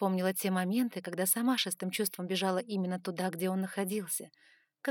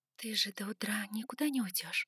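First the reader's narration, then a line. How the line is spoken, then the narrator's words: Whispered. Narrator (Russian): прошептала я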